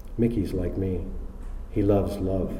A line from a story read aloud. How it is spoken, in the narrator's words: In a softer voice, said